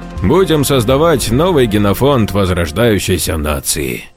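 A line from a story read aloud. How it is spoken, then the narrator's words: Finishing with a chuckle. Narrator (Russian): закончил за него Джованни, как всегда хохотнув по своему обыкновению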